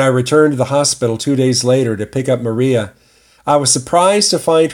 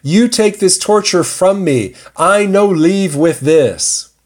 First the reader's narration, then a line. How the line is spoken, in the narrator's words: she cried